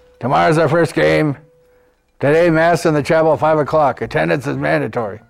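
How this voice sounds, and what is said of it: Impression of a football coach. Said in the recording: “Coach Ruccino came out of his office. One of the young men on our team could do an excellent impersonation of him. But I'll do my best here.”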